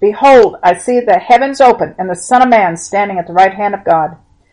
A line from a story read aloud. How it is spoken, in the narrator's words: Suddenly Stephen cried aloud